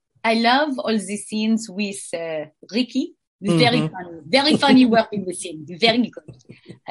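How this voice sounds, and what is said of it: Put-on French accent. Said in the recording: “answer these questions in a French accent ... answer in a French accent.”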